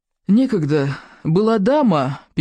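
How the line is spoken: Sad sigh. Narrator (Russian): печально вздохнул неимоверно

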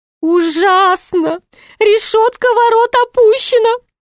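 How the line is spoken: Groaning. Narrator (Russian): простонал Шут

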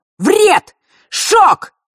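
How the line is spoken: Shouted out. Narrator (Russian): почти одновременно с ним выкрикнул Миракл

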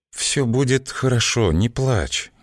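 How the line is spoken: Uncertain soothing whisper. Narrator (Russian): неуверенно прошептала, пытаясь как-то успокоить

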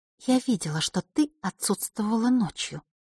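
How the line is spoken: Quiet. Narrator (Russian): тихо произнесла она

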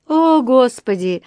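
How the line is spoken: Sigh. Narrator (Russian): вздохнула миссис Браун

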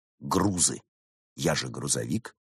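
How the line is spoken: Hmph. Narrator (Russian): Лис хмыкнул

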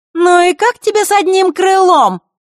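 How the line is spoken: Shout. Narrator (Russian): прокричала Маришка

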